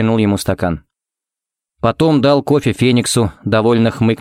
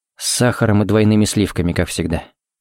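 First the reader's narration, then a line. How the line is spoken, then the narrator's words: Quiet. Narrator (Russian): сказал тихо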